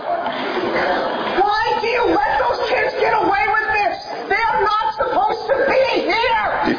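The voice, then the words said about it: Man shouting angrily. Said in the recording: “he's shouting”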